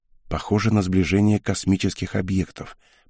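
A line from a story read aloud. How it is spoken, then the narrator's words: Quiet. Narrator (Russian): произнесла она тихо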